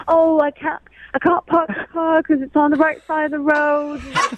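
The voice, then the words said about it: Mock British accent. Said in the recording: “That's a pretty good accent. That's a pretty good accent.”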